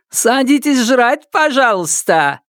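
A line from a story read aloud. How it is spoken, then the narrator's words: Laughing. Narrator (Russian): Засмеялся Сёма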